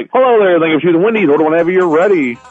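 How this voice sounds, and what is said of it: Smooth radio announcer voice. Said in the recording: “everybody loves my voice at the cash register ... you got a radio voice.”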